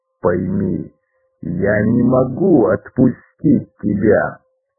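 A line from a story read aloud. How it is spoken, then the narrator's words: Calm growl. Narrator (Russian): спокойно прорычал прыгун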